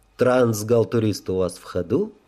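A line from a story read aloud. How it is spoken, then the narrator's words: Gentle inquiry. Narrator (Russian): ласково осведомился я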